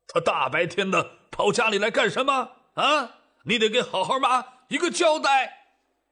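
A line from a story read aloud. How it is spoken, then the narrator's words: Roaring. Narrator (Chinese): 赵长禄朝赵正大吼道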